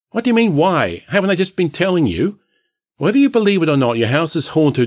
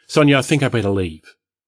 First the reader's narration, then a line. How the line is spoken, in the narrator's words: I hesitated again, then quickly said